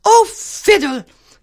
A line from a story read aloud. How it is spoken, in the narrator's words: the haughty princess cried